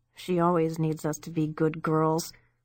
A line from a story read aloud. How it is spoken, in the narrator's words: Debbie mumbled